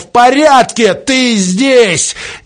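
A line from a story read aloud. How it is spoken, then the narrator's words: Shouting. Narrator (Russian): И снова кричал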